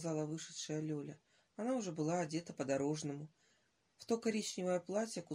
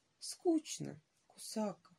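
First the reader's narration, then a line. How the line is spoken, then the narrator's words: Quiet. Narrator (Russian): тихо проронила Лёля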